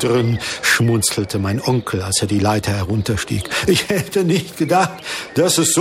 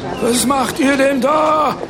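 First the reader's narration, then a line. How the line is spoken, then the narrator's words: Indignant woman shouting. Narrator (German): schrie eine Frau empört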